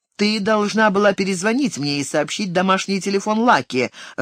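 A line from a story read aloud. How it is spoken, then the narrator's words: Irritated speech. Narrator (Russian): раздраженно проговорил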